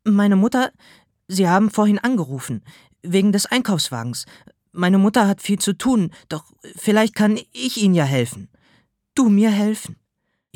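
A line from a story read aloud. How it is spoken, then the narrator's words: Stammering. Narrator (German): Ich stammelte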